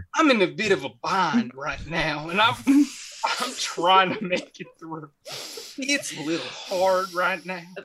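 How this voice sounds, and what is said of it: Put-on Texas accent, near crying. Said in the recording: “your Texas accent is that you're constantly on the verge of crying. That's what it sounds like.”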